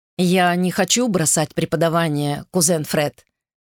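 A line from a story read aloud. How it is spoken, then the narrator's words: Plain. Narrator (Russian): сказал Гарольд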